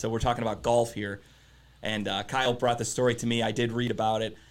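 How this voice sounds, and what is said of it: Strained, rough-sounding voice. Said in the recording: “My voice is obviously kind of fucked up.”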